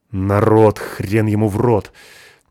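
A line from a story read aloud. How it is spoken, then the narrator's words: Suddenly angry. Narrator (Russian): неожиданно зло ответил он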